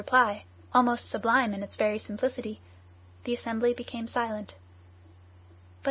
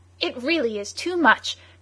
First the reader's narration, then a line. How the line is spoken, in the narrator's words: cried Michael Arden's adversary